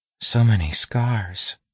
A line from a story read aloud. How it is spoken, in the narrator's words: she said quietly, as if not noticing what he'd said